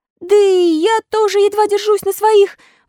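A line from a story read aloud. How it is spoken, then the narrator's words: Crying, unsteady exclamation. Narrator (Russian): воскликнул, плача и шатаясь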